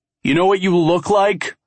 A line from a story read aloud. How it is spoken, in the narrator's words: I bellow, anger